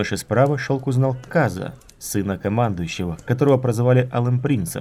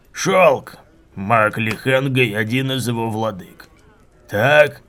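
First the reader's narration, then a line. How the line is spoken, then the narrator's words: Growl while chewing. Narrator (Russian): прорычал Куриан, грызя ребро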